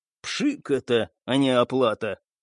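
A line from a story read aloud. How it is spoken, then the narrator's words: Through gritted teeth. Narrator (Russian): процедил сквозь зубы Стас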